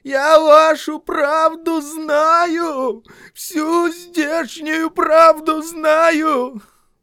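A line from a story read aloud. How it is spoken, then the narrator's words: Strained, cracked shouting. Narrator (Russian): он надорванным голосом кричал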